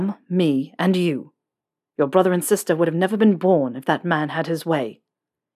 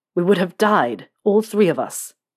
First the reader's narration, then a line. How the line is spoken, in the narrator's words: James said, his voice turning into a growl